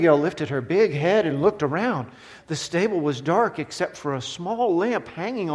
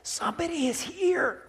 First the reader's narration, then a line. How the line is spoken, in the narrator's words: Josh whispered